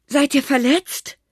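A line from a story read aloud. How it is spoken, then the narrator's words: Grandfather calling down. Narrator (German): rief Opa hinunter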